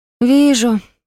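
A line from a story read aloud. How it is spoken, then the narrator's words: Glum agreement. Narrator (Russian): уныло согласилась Киренса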